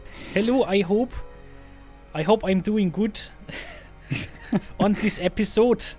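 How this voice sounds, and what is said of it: Exaggerated stereotypical silly accent. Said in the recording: “put on a very, very stereotypical stupid accent”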